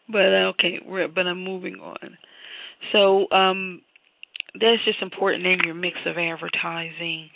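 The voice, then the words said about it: Raspy, hoarse voice. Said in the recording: “I'm really having a hard time with allergies. So my voice is sounding raspy”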